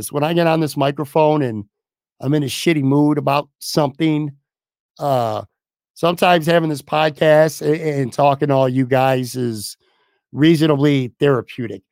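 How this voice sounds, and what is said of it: Hoarse, strained voice. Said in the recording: “I'm literally losing my voice right now.”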